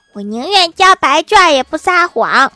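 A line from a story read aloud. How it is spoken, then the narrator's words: Loud. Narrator (Chinese): 郭晓霞…大声说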